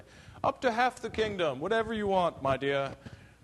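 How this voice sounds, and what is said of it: Put-on British accent. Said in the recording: “I slipped into a British accent there”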